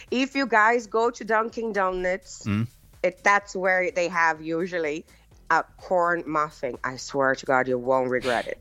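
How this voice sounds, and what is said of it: Beautiful regional accent. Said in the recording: “you have got a beautiful accent.”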